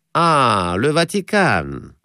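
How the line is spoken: Cab driver drawling. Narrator (Russian): протянул извозчик

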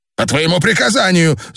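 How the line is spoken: Shout. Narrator (Russian): закричал Дрок У

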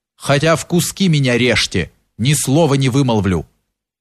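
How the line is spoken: Firm voice. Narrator (Russian): прибавил твердым голосом Кирша

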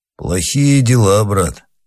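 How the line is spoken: Gloomy. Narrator (Russian): сказал Панаргин мрачно

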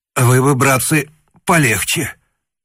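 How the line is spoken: Forced out. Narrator (Russian): выдавил он

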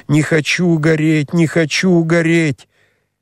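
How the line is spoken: Frantic screaming, growing louder. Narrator (Russian): она кричала все громче, все неистовее

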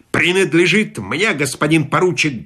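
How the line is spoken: Rude interruption. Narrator (Russian): грубо оборвал его полковник

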